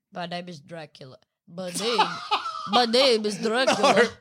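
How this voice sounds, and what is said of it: Dracula impression with stuffy nose. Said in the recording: “Is that what Dracula would sound like with a cold? ... my nose is stuffy”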